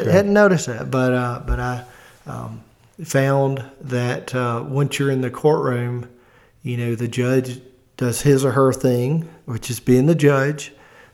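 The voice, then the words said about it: Thick Southern US accent. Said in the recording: “I've been told that I have a real thick Southern accent.”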